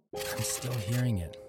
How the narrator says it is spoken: I whispered to the AD

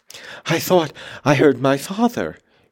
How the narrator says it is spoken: gasped

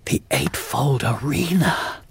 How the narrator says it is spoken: I gasped

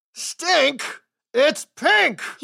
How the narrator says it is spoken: he roared

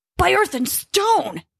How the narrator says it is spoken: he yelled, struggling to be heard over the wind

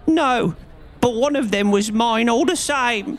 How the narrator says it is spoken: whined the little man

